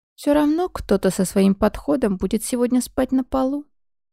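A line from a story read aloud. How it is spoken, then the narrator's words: Snide. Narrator (Russian): ехидно сказала Ми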